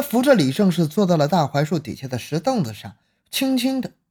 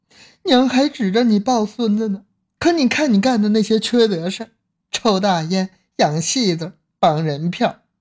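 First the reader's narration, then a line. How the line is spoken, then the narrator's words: Crying. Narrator (Chinese): 李胜士还在哭着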